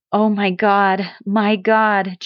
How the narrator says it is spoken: Joseph groaned, clenching his fists

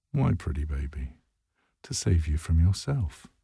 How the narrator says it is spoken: says, smiling gently

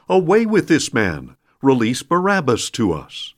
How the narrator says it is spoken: they all cried out in unison

